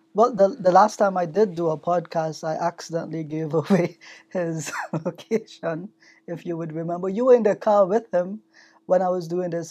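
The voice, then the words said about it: Strong Trinidadian accent. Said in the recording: “you're trying to work on the Canadian accent, but you still got that strong Trinidad accent”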